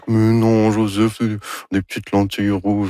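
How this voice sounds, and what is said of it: Imitates another person's voice. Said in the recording (French): “Ça, c'est mon imitation de Anne... C'est très réussi.”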